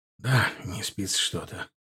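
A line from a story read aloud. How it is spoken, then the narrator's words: Exhaling. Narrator (Russian): выдохнул Семипалов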